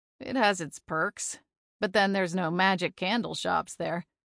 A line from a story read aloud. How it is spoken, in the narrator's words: he said with a chuckle